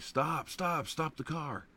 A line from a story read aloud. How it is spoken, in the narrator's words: Pat began screaming